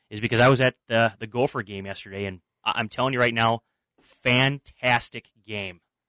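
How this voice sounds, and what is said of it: Raspy voice. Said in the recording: “my voice is a little bit raspy”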